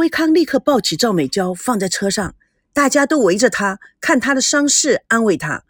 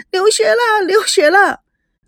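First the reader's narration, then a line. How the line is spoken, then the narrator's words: Loud crying girl. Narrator (Chinese): 大声的哭了起来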